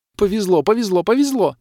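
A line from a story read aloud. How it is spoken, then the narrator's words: Eager squeak from behind. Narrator (Russian): Горячо пропищали мне в затылок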